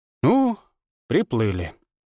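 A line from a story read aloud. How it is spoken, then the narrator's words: Resigned sigh. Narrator (Russian): обреченно вздохнула Ирма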